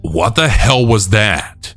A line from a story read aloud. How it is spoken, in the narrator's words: I yelled